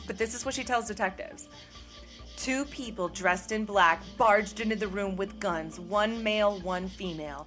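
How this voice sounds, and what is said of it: Mock-dramatic reading voice. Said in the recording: “I have to read this with, like, my dramatic voice because this is how just asinine the story sounds”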